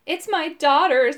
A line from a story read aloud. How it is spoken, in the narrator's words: sobbed the man